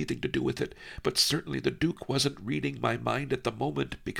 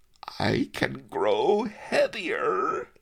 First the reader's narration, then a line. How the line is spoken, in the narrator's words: the Duke giggled